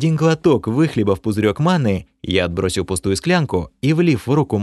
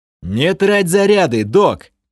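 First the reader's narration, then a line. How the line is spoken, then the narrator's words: Warning shout. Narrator (Russian): предостерегающе крикнул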